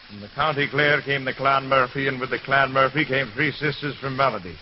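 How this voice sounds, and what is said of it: Heavy put-on Irish brogue. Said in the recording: “That's a heck of an Irish brogue I've got, but I hope you understand it.”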